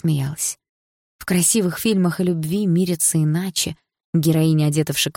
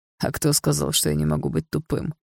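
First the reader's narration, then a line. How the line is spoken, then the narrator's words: Smirking. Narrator (Russian): хмыкнул Дима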